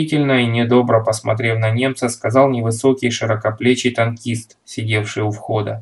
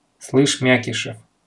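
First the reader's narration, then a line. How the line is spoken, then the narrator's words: Stern. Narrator (Russian): строго произнес политрук Нарков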